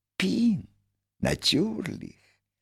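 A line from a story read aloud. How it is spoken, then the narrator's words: Whispering. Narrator (Russian): прошептал великий механик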